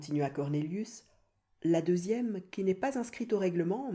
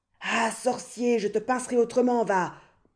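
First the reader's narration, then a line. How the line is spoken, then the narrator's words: Roaring. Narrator (French): rugit Gryphus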